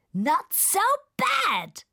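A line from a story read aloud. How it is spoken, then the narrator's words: Shouting over storm. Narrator (German): schreit der Regenwurm gegen das Unwetter an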